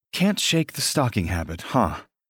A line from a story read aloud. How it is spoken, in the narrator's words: Stella murmurs